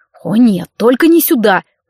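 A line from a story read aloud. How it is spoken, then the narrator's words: Hissed through teeth. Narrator (Russian): процедил сквозь зубы Владимир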